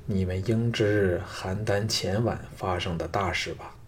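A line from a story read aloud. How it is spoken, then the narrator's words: Slightly shaken. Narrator (Chinese): 季嫣然微震道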